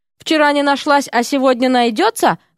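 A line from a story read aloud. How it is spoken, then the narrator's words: Snorting, plump man. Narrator (Russian): хмыкнул толстячок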